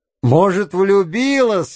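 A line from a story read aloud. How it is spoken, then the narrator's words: Laughing. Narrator (Russian): рассмеялся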